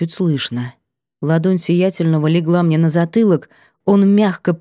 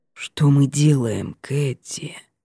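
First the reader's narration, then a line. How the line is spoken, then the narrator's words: Hoarse strained voice. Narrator (Russian): Голос сиятельного звучал хрипло и сдавленно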